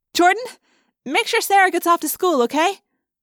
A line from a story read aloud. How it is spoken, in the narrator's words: I called out